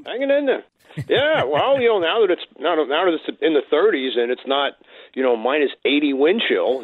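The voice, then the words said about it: Long Island New York accent. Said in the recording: “What part of New York are you from?... The accent?... The accent, the dead giveaway”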